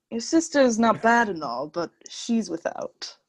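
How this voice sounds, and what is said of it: Full British accent impression. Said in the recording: “Not a bad impression by you, too. ... that was also, like, a full British accent. Like, it was not Australian. ... It didn't sound bad.”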